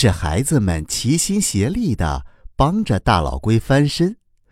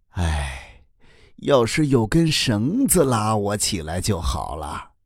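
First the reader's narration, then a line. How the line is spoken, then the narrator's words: Sighing old turtle. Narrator (Chinese): 大老龟叹了一口气说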